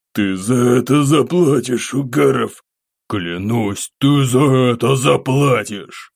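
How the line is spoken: Venomous hiss. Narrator (Russian): шипение этого урода

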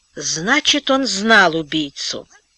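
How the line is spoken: Muttered. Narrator (Russian): пробормотал Антон

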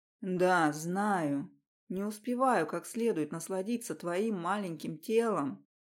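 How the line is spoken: Intimate whisper. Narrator (Russian): шептал он

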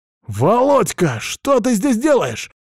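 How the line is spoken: Shouted. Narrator (Russian): крикнул я

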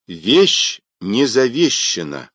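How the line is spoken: Loud announcement. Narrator (Russian): громко объявил полковник

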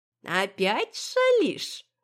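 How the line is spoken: Chuckling. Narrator (Russian): хохотнула Софья Ильинична

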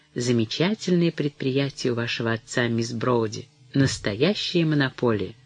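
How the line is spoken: Smug confidential tone. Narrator (Russian): сказал самодовольным и конфиденциальным тоном

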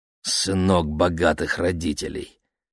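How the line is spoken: Father, through teeth. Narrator (Russian): процедил папа

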